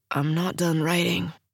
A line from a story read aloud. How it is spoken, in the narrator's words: he murmurs